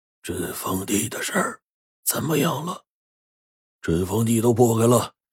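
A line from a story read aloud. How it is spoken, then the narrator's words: Hoarse commanding voice. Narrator (Chinese): 那嘶哑声音呢又传来了，还挺威严的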